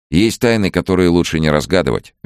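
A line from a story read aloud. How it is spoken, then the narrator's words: Cheerful. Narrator (Russian): весело сказал он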